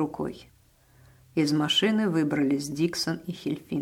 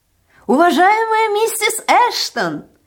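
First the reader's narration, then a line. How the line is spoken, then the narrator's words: Shouted from afar. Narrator (Russian): еще издалека закричал Диксон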